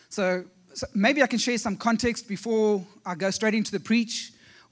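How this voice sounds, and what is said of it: South African accent. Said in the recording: “my South African accent ... the reason for the accent is we come from way south ... We actually come from South Africa”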